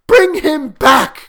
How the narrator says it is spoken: cried the old woman

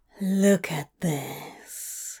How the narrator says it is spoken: breathed

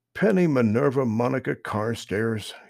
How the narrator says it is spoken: said with a sigh

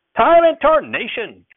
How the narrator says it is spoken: Grandfather shouted at me

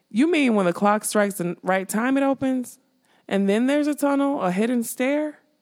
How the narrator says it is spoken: His voice was doubtful, for the clock seemed far too lean to conceal any such passageway

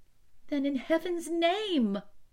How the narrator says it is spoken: I cried, unable to bear the suspense any longer

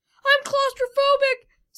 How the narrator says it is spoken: said Sam, while his voice shook and breathing was shortened

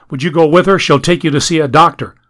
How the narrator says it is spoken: He went to Millicent and yelled

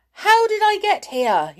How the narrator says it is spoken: He shouted

